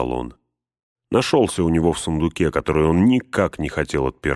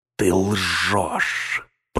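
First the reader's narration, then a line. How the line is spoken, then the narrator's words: Hiss. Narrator (Russian): прошипел Гнилоуст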